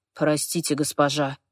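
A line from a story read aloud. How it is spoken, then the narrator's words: Quiet. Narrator (Russian): тихо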